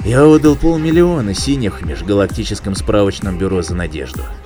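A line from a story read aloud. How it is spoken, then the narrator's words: Gloomy reply. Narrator (Russian): мрачно ответил Айра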